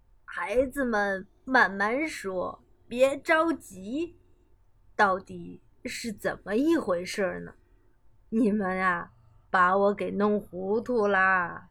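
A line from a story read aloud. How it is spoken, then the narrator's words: Cheerful laughing old woman. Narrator (Chinese): 熊婆婆笑呵呵地说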